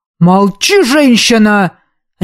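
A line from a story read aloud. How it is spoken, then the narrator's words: Barked. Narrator (Russian): рявкнул ростовщик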